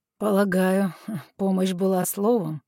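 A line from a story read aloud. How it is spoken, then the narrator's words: Skeptical scoff. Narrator (Russian): скептически хмыкнул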